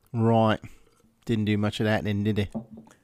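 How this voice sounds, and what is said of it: Put-on Cockney accent. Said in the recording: “Did you do your terrible accent while you were there? ... I have a great British accent. ... What about your Cockney accent?”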